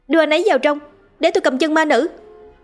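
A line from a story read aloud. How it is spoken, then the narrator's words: Loud shout. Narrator (Vietnamese): A Linh hét lớn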